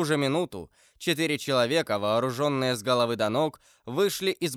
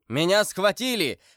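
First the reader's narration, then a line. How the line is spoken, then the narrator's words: Shouting with full force. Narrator (Russian): закричал Атос изо всей силы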